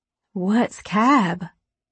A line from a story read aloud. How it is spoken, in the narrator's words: she asked